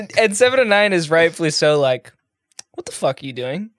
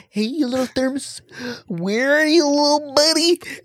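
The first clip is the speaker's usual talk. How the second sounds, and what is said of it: Chipper imitation of a TV character. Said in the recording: “great Neelix impression”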